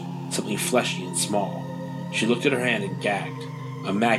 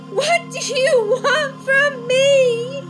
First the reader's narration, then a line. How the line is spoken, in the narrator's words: She screamed into the infinite fog